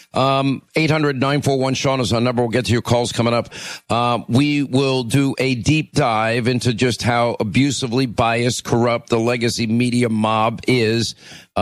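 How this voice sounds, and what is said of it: Hoarse voice. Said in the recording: “my laryngitis”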